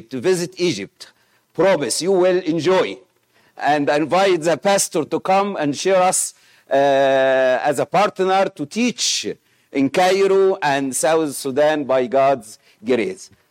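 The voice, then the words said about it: Egyptian-accented English. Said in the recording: “Sorry for my Egyptian accent”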